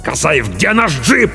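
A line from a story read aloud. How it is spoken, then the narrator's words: Captain's bark. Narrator (Russian): рявкнул капитан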